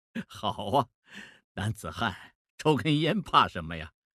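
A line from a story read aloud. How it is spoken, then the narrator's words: Laughing. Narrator (Chinese): 孟梅笑了，说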